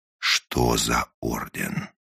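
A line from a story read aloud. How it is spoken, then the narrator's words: Menacing repeated question. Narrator (Russian): грозно повторил он свой вопрос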